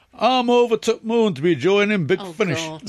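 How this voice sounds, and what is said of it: Jodie Whittaker's Yorkshire accent impression. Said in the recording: “in her inimitable Yorkshire accent ... Yorkshire accent.”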